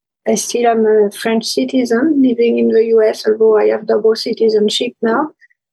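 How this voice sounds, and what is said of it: French accent. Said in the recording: “as my accent may have hinted, I grew up in France”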